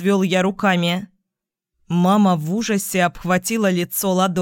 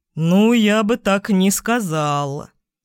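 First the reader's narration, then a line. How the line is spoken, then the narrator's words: Drawn-out drawl. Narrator (Russian): протянул Майк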